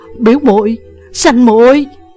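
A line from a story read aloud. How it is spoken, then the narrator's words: Loud cry from the ground. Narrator (Vietnamese): Uông Khiếu Phong nằm thẳng cẳng dưới đất, lớn tiếng hô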